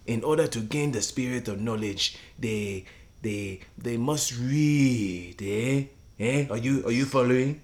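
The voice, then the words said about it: Put-on African accent. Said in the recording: “My African accent isn't as good as yours”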